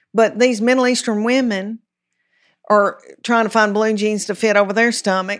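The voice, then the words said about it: Thick Southern US accent. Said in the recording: “People want to say you're a Southern comedian ... I know you got a thick accent.”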